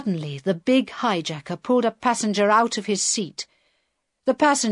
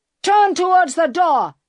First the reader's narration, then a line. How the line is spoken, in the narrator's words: he shouted